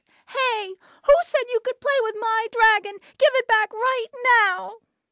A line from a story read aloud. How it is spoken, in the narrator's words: She cried out